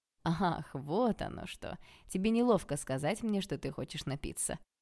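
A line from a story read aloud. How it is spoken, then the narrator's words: Laughing. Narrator (Russian): рассмеялся Олег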